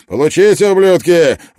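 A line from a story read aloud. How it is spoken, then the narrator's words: Shouted. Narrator (Russian): выкрикнул Клин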